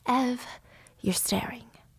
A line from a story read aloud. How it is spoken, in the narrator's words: Harry whispered lovingly in Evelyn's ears